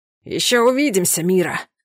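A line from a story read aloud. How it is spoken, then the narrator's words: Hoarse shout. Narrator (Russian): хрипло крикнул мне вслед Даурен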